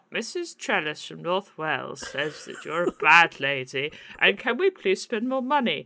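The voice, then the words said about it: Imitates another person's voice. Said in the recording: “That is possibly the best Theresa May impression I've ever heard.”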